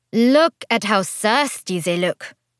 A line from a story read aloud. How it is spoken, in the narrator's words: Evelyn said with a bored drawl